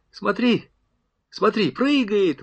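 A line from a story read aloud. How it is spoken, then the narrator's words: Excited exclamation. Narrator (Russian): воскликнул Сафронов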